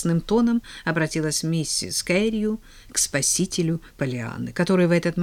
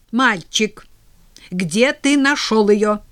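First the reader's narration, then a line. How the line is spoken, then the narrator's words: Sharp repetition. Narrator (Russian): повторила она резко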